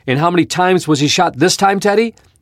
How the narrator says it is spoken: yelled Horace Gladstone

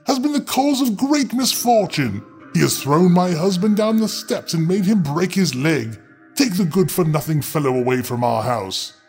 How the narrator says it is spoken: cried she

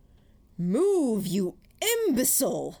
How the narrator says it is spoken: Gordon bellowed

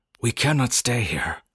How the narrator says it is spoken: Nuskat told us excitedly

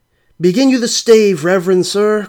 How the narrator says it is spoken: cried they all

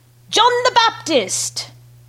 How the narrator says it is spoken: screamed

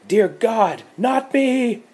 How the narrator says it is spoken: She screamed

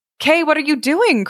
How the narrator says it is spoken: cried the little girl

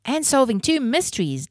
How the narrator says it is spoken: Jake exclaimed

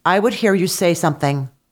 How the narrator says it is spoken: she said in a commanding tone

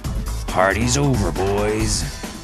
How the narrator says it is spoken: growled Mr

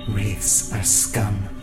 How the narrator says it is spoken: Sylvia hissed

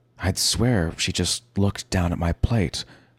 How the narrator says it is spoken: I said

